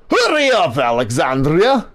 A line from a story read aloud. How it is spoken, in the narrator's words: Victor barks